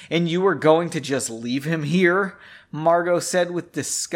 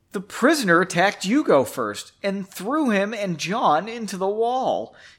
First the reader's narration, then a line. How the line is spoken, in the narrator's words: exclaimed